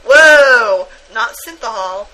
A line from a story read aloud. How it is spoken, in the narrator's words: exclaimed